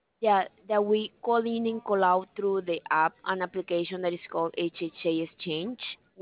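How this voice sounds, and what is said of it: Noticeable accent, hard to follow. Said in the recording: “I'm trying to catch your accent.”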